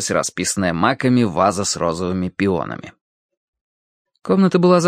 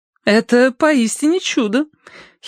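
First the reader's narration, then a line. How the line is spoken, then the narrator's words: Giggling. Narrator (Russian): хихиканье с кушетки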